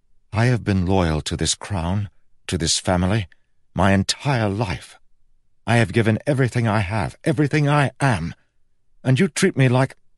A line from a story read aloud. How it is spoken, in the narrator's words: His voice faltered